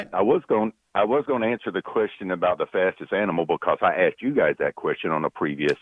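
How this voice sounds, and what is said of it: Good radio voice. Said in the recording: “Nice voice. ... you got a good radio voice.”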